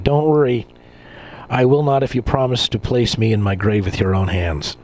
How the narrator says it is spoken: She would laugh and say

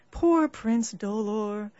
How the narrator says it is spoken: sighed and said

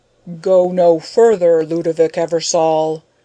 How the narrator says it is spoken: a mighty voice roared from within

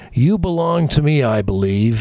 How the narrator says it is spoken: He's moaning

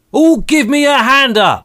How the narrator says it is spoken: he roared

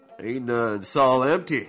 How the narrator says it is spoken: said, slurring a bit now in shock and admiration

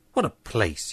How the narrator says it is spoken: he muttered

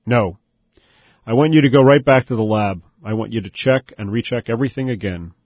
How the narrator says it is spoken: said in a firm voice

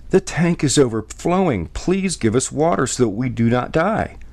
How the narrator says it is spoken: The people begged

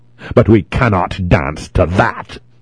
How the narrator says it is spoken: grumbled

